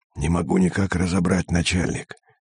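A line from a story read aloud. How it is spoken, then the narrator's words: Hissing whisper. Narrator (Russian): свистящим шепотом ответил Пермяк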